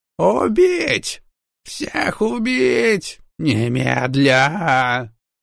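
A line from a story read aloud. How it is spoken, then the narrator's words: Shrill piglike squeal. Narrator (Russian): Завизжал из окна особняка резанный поросенок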